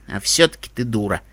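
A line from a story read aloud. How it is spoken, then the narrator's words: Grumbling. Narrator (Russian): проворчал Эпплблум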